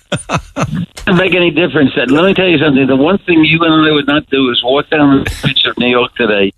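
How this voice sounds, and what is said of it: American New York accent. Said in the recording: “Let me go from one American accent to another... Morning, New Yorker”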